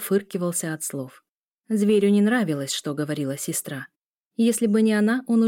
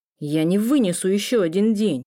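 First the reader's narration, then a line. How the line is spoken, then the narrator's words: Muffled growl. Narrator (Russian): Приглушенно рыкнул Лео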